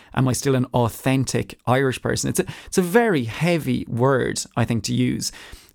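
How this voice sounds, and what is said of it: Irish accent. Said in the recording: “I have an Irish accent ... an authentic Irish person with an Irish accent”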